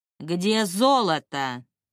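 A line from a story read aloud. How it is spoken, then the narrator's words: Loud, rude question. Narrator (Russian): громко и довольно грубо спросил шкипер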